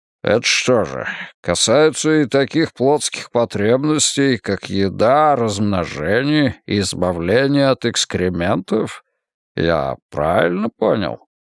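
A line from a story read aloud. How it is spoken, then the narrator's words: Grumbling. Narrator (Russian): Генерал Морпурго проворчал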